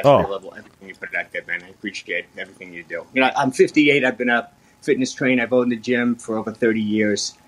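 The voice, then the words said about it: Bronx New York accent. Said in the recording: “you've got a great accent... That's a pretty unmistakable Bronx accent.”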